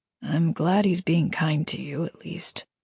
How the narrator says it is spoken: Damien said quietly, so only she could hear

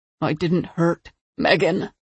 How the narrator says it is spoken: Harper groaned

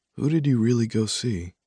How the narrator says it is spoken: I asked softly

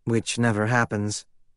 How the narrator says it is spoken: Emmy said

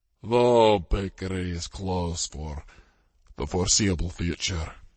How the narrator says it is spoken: Kevin said mournfully

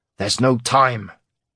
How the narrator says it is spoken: Garrick snarled in exasperation

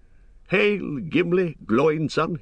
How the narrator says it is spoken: he cried

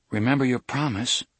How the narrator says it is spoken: Alan said nervously

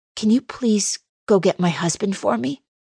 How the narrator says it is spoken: croak

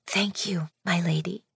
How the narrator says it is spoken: he whispered

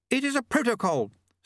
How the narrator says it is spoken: snapped Lady Lejeune

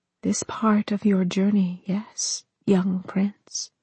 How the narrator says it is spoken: Frostmourne whispered

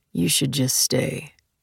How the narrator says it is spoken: mumbled

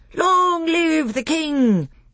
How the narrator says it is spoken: they all cried

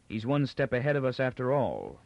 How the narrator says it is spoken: Captain Pritchard said icily

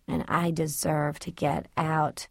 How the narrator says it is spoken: Tricia said softly

